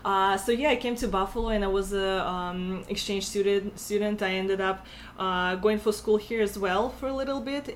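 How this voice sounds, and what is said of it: Russian accent. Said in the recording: “I'm from Russia originally, as you can tell by my accent.”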